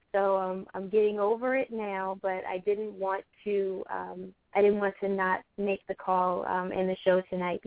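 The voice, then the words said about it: Unwell-sounding voice. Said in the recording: “I'm going to apologize for my voice... I think I have the flu.”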